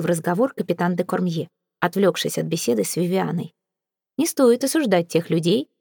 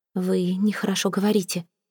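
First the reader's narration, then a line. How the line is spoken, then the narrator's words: Shy blushing whisper. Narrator (Russian): прошептала, слегка порозовев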